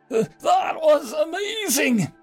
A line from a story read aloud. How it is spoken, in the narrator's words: the dwarf yelled